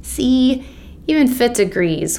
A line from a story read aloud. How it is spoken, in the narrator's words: Will moaned